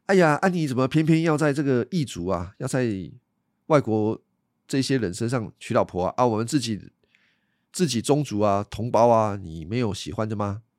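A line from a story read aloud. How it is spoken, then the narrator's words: Plain. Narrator (Chinese): 他爸爸妈妈跟他说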